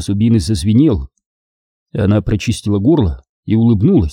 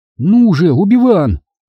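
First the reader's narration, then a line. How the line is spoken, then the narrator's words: Strained, through still lips. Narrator (Russian): выдавила Сири, не шевеля губами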